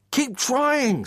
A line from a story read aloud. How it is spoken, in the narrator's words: screamed Dan